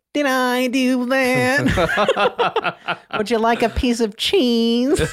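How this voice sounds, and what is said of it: Nerdy nasal Urkel character voice. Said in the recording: “your Urkel impression”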